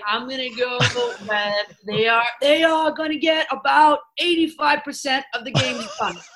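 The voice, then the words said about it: Imitates another person's voice. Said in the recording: “She got the impersonation.”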